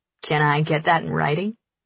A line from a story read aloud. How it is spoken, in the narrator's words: He chuckles